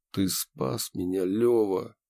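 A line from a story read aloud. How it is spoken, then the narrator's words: Quiet but clear. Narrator (Russian): тихо, но четко сказал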